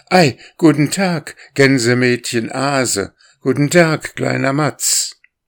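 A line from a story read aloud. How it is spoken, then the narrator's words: Calling out. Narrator (German): rief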